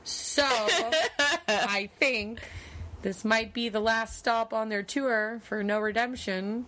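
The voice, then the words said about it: Floridian accent, distinctive pronunciation. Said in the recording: “Tour? I'm sorry. ... I always say it like that. ... Listen, I know I say it funny, okay? I don't let people change my accent. ... My Floridianness.”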